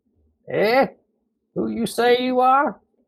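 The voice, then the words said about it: Hoarse voice, thick Texan accent. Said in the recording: “His voice was hoarse, but with a distinctly thick Texan accent.”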